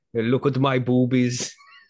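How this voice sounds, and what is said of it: Very convincing imitated accent. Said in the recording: “you're disturbingly good at that accent... that's the fake accent”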